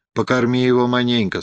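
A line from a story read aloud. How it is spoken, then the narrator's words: Plain. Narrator (Russian): сказала она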